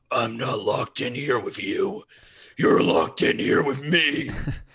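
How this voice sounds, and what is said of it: Good Rorschach impression. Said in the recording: “Rorschach, like one thing, at least the movie version, is that voice is pretty damn cool ... That was a pretty good impression.”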